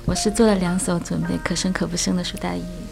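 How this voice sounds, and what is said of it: Quiet, softly spoken words. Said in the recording (Chinese): “我决定小声的说”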